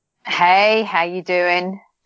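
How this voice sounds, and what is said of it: American-sounding accent. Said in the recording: “That sounded very American.”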